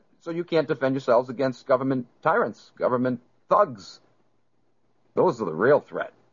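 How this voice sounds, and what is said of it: Usual voice. Nothing is said of it.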